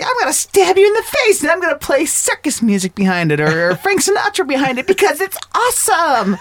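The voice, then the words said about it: Imitates a film character's voice. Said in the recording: “It's a great impression. ... It was really good. ... that's spot on. ... That's actually really good.”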